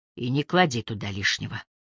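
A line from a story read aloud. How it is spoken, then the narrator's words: Grumbled. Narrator (Russian): он проворчал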